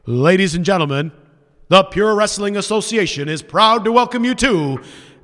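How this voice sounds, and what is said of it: Ring announcer voice. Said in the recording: “doing my whole announcer voice”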